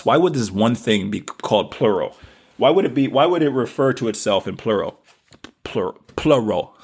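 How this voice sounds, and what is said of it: Southern American accent. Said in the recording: “my southern accent comes out”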